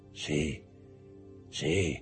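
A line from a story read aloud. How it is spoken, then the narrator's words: Murmured. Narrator (Italian): mormorò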